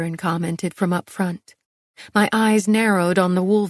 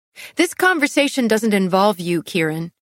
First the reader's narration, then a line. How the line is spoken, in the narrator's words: I snapped